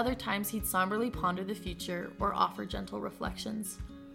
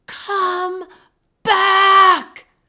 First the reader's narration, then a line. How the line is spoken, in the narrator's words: She screams